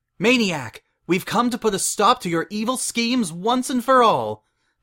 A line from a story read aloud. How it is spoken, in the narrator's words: the masked Matterhorn cried